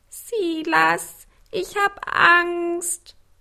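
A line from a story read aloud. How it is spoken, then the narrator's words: Whimpering. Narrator (German): wimmerte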